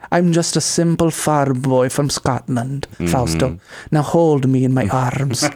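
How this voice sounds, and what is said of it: Put-on Scottish accent. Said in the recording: “he has that Scottish accent too”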